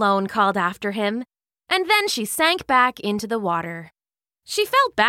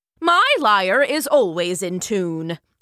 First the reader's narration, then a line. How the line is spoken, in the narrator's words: snapped Apollo